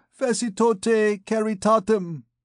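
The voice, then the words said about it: Nasal droning Hungarian accent. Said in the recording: “droned through his nose with a Hungarian accent”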